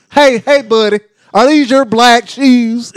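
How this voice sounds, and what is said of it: Put-on white American accent. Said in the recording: “White people, boy. With that damn accent.”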